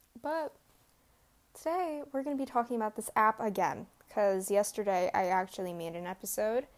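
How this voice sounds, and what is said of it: Groggy just-woke-up voice. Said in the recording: “I just woke up, so my voice is all messed up”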